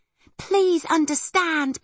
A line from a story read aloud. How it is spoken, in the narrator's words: pleaded Arietti